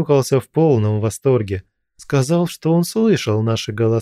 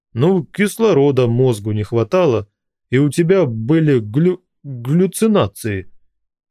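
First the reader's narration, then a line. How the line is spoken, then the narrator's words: Drunken stammering. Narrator (Russian): пьяно запинаясь, объяснил Руслан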